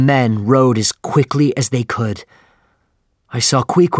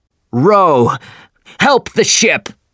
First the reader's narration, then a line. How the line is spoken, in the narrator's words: shouted Captain Ahab